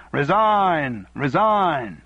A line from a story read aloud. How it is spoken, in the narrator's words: opposition shouts of